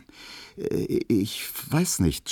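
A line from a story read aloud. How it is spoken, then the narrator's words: Stammering. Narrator (German): stotterte er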